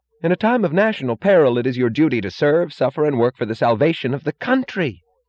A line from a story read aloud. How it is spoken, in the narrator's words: Lawson cried suddenly, blindly, righteously